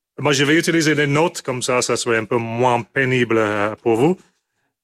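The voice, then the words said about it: Strong non-native accent. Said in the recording (French): “mon accent était terrible ... À écouter mon accent, 45 minutes de pénitence”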